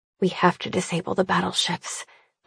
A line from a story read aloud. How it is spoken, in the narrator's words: I mutter flatly, already exhausted by the prospect